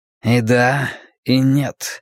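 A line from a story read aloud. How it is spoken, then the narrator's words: Slightly husky voice. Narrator (Russian): сказал он хрипловатым голосом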